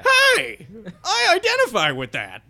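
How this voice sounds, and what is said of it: Imitates an irate bar patron. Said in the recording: “that's a good impression of that person”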